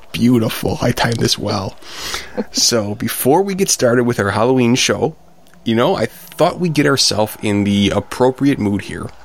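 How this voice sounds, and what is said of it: Deeper voice from a cold. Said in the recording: “Does my voice sound like one octave deeper? Am I giving like that spooky Halloween sound right now? ... You're giving a good Halloween voice ... I credit to the cold. I credit it. To the illness.”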